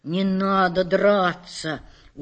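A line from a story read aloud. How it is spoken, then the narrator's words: Soft. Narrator (Russian): уже мягко сказал он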